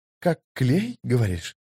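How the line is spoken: Thoughtful female voice. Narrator (Russian): задумчиво проговорил четвертый, женский голос

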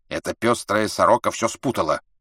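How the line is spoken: Angry old woman interrupting. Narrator (Russian): сердито прервала старая туркменка

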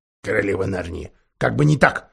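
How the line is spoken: Grumbling. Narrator (Russian): проворчал мистер Бобр

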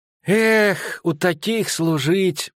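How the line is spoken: Sigh. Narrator (Russian): снова вздохнул Мельфи

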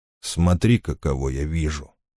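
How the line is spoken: Quiet speech. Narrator (Russian): сказал он тихо

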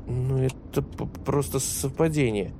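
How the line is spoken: Muttered. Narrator (Russian): пробормотала Жан

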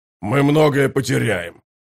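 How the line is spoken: Growling commander. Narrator (Russian): прорычал воевода

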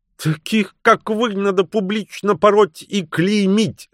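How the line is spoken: Shouting. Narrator (Russian): закричала миссис Уэйт

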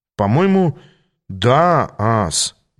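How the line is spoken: Uncertain reply. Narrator (Russian): неуверенно ответил я

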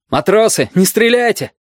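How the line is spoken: Shout. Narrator (Russian): крикнул Бенецкий

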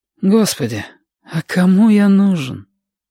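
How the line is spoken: Breathed, artless bitterness. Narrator (Russian): Выдохнул сопливик, простодушная горечь

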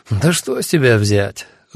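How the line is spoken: Sighing. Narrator (Russian): вздохнул Альгирдес

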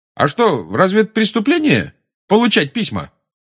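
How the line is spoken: Loud question. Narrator (Russian): громко осведомился Фред

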